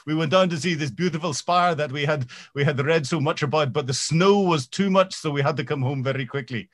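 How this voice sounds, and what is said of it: Poor put-on Russian accent. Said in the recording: “excuse my Russian accent, I'm no good at it.”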